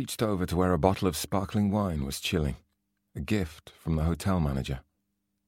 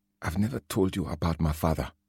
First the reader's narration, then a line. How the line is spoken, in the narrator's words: she said quietly